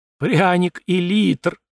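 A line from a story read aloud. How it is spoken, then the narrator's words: Tragic, tearful. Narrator (Russian): произнес он трагичным тоном, и по щекам его побежали слезы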